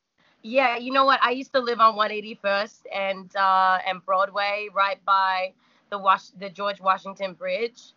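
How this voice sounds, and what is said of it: Australian accent. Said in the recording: “your accent ... originally from Australia ... Melbourne, actually.”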